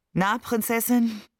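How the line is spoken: Tired, smiling question. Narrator (German): fragte er mich müde lächelnd

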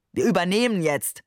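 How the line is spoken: Tossed off with a wink. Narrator (German): warf er den Passagieren entlang des Korridors zu und zwinkerte dabei

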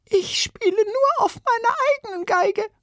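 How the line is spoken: Squeaky, high voice. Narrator (German): piepste eine Violinistin

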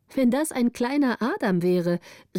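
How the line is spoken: Calling out. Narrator (German): rief Gritta

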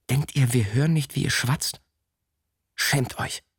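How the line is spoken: Hissing. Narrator (German): zischte

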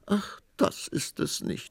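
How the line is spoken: Queen sobbing. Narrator (German): schluchzte die Königin

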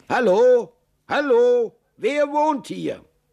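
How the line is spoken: Calling out. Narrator (German): rief er

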